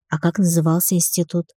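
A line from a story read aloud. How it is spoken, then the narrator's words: Timid question. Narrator (Russian): робко спросила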